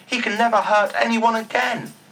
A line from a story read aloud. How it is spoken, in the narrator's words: the goblins cried with joy